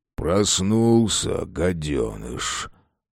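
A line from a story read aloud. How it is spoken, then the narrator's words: Grumbling from above. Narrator (Russian): Проворчал над ним Габа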